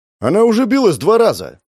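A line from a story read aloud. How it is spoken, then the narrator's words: Kids shouting over each other. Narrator (Russian): Наперебой закричали ребята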